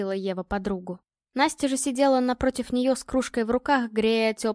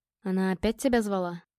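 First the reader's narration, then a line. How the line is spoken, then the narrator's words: Quiet question. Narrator (Russian): тихо задал вопрос Илья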